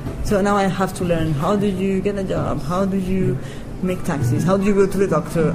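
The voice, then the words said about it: Charming non-native accent. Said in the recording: “You don't have a cute accent. You have a very charming accent.”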